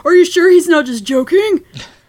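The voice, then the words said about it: Mocking voice of a random online commenter. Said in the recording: “that's a great impression of someone, like, slipping into your notifications. Like, that's the voice I imagine in my head.”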